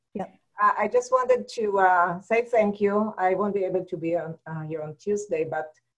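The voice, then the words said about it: Israeli accent. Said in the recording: “My accent is Israeli. ... It's an Israeli accent.”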